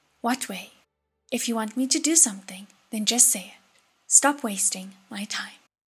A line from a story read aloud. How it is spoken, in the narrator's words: He blew out a breath and said gravely